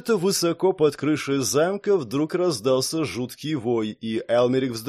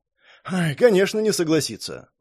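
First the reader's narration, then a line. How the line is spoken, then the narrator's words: Sighing. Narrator (Russian): вздохнул Шон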